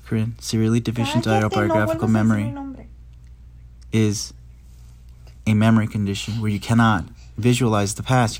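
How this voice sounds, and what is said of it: Clear, formal radio announcer voice. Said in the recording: “That doesn't even sound like you... this is my radio voice. I have to speak clearly so people can understand me.”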